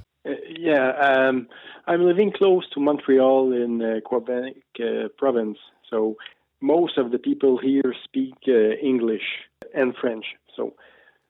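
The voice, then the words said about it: Noticeable non-native English accent. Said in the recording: “listeners may notice that you have an accent.”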